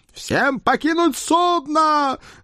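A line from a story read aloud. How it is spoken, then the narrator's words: Thunderous roar. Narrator (Russian): громогласно проревел Эд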